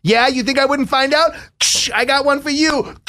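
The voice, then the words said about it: Put-on accent, possibly Long Island. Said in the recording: “What was that accent that you were doing? Because if that's a Long Island accent”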